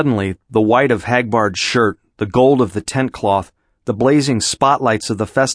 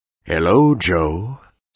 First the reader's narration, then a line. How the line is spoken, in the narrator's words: said Hagbard softly